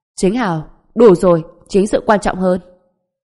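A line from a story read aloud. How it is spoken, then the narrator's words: Deep-voiced stern shout. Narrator (Vietnamese): Người đàn ông trung niên trầm giọng quát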